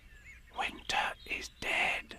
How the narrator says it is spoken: whispered to her neighbor

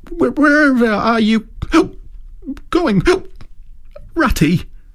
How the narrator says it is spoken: cried the tearful Mole, looking up in alarm

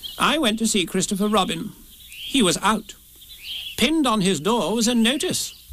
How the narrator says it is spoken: said Rabbit solemnly

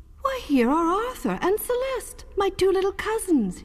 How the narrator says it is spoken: he cried in amazement

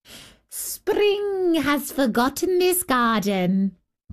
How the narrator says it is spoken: they cried

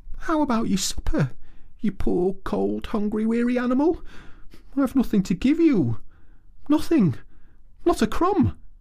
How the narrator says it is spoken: he moaned

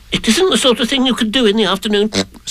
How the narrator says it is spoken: said Piglet quickly

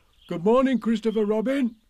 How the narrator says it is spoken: he called out

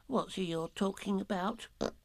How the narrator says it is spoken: Piglet whispered to Pooh

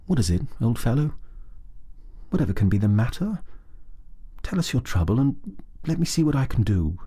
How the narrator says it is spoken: he said, very quietly and sympathetically

